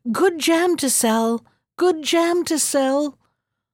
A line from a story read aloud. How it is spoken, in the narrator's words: sounded sweetly